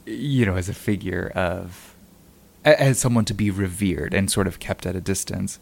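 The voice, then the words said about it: Choked-up, failing voice. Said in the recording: “I'm like losing my voice. I'm just getting really choked up”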